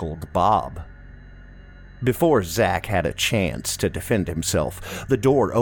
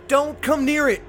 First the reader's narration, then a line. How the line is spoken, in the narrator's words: I yelled